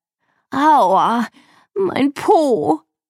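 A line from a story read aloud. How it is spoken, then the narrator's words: Mother whimpering. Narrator (German): wimmerte Mama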